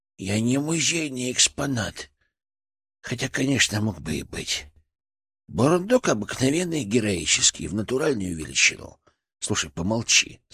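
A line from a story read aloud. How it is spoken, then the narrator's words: Plain. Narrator (Russian): сказал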